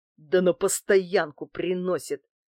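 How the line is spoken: Angry. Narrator (Russian): злобно зыркая глазами, сказал Герыч

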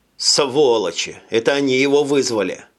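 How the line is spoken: Plain. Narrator (Russian): сказал Джим

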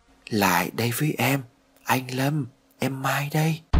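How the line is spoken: Soft echoing voice. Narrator (Vietnamese): vang vọng một giọng nói nhỏ nhẹ ở bên tai

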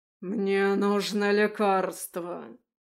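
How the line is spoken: Growl. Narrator (Russian): зарычал Андаим

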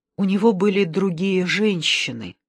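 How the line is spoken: Whispered. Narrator (Russian): прошептала

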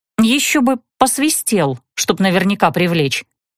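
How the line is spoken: Irritated muttering. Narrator (Russian): пробормотала я раздраженно

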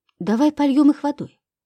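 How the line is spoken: Timid suggestion. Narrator (Russian): робко предложила я

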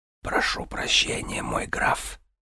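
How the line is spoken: Whisper. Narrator (Russian): Калазан прошептал

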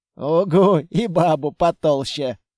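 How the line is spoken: Big man laughing. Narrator (Russian): рассмеялся амбал

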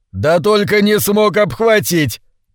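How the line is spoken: Father's loud laughter. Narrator (Russian): папа захохотал

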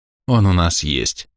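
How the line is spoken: Soft, smiling. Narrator (Russian): мягко улыбнулся Оливерио

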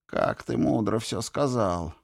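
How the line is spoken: Sighing. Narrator (Russian): вздохнул Кин

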